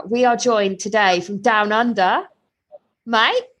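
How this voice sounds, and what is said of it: Put-on Australian accent. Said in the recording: “You can't expect that these impressions are going to come for the whole time. ... I love the Australian accent.”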